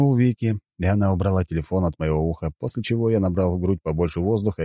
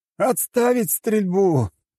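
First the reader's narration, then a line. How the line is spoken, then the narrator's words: Shout. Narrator (Russian): прокричал я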